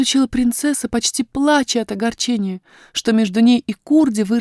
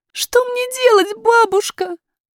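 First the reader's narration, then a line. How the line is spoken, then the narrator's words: Sobbing princess. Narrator (Russian): зарыдала принцесса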